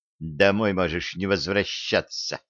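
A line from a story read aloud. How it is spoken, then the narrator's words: Furious hiss. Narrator (Russian): яростно прошипела ему в лицо Янка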